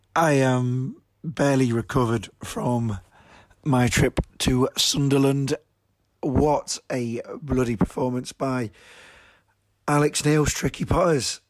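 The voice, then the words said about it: Hoarse, croaky voice. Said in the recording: “It's a very croaky”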